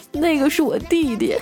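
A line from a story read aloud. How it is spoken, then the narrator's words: Crying. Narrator (Chinese): 那男人哭了说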